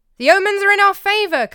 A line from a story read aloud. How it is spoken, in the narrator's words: Callimachus cried